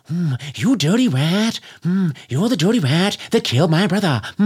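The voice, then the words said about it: Imitates another person's voice. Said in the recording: “Old impressions... that's Jimmy Cagney, and that was the only impression that most people did”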